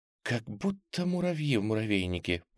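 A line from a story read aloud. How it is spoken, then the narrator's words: Whisper aside. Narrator (Russian): прошептала она, стараясь говорить в сторону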